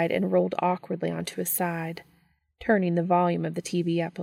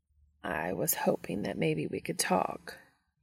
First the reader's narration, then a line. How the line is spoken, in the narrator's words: Cass said quietly